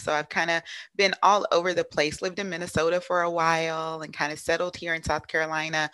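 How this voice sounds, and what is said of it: Slight Southern twang. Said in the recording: “I'm from Louisiana, so you may hear a little bit of Southern twang in there”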